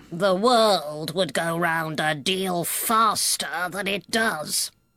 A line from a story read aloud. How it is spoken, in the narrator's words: said the Duchess in a hoarse growl